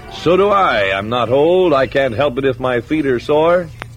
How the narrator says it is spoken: Greybeard lifted his trunk and roared

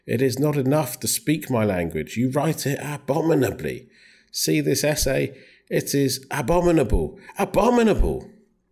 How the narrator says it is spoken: she cried

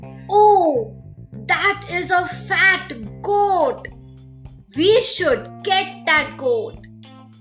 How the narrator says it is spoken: the first rogue exclaimed

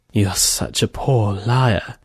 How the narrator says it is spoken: She … whispered

